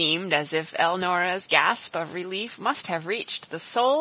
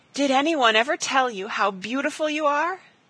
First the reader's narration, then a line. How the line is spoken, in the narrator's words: she cried